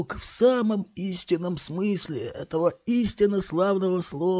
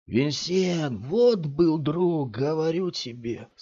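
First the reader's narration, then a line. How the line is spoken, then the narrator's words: Sad. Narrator (Russian): сказал мужчина печально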